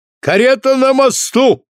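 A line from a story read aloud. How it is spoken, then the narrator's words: Shouted. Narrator (Russian): крикнул Бриттон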